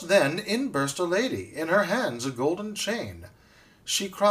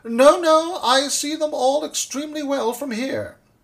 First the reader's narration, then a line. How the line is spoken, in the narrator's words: The poor old dentist wrung his hands, and weeping in despair, he cried